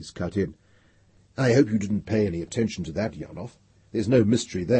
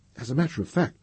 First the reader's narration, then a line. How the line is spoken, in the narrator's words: said Palerat calmly